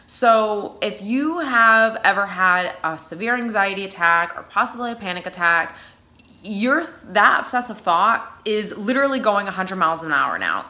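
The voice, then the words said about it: New England accent. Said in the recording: “that's my New England accent”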